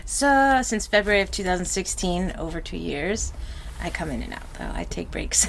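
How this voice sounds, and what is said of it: American New York accent. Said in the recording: “What's your accent? ... American. I'm from New York.”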